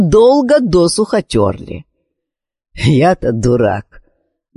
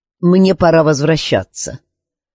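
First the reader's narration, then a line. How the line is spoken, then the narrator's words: Dry flat tone. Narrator (Russian): Наконец Гилмур сухо сказал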